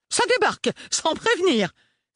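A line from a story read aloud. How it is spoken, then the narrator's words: Scandalized exclamation. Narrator (French): s'exclama grand-marraine d'un ton scandalisé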